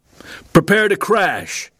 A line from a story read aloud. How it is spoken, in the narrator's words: Louis heard Phil yell into the intercom